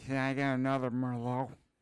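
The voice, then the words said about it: Slurred imitation of another person's voice. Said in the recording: “a pretty good impersonation. ... Need a little more slur in it.”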